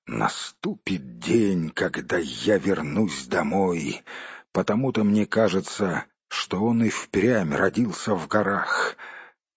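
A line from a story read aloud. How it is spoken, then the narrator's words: Quiet grumbling under breath. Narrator (Russian): тихонько ворчал себе под нос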